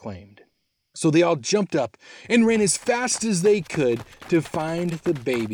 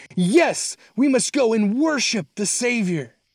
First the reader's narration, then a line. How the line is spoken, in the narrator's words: Another one shouted